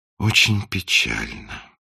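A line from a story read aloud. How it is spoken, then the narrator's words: Sigh. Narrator (Russian): вздохнул принц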